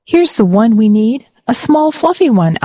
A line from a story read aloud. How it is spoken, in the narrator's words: Alia exclaimed